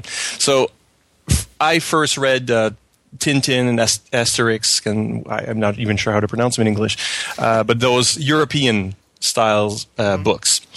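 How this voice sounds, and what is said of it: French Canadian accent. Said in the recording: “as you can tell by my strange accent, I'm a French Canadian”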